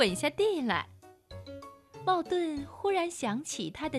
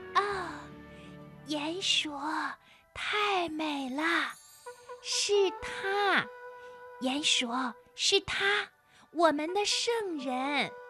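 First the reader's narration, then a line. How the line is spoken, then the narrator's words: Hushed, breathless. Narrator (Chinese): 田鼠威力努力地深吸一口气，压低了声音说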